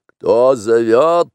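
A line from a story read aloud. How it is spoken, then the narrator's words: Barking roar. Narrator (Russian): рявкнул Шер-Хан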